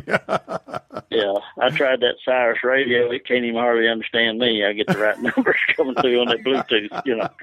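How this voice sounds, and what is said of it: Kentucky accent. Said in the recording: “Kentucky accent probably don't help most of the time”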